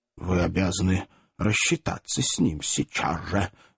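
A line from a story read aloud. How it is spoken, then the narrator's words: Imposing mutter. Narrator (Russian): внушительно пробормотал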